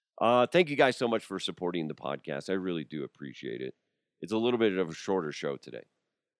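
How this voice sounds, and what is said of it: Hoarse, strained voice. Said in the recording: “I'm losing my voice again”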